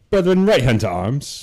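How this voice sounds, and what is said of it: Attempted British English accent. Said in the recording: “do it in an English accent ... I don't really have a very good British accent”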